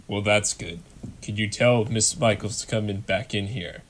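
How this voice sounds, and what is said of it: Deep character voice. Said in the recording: “Harry's the real deep voice.”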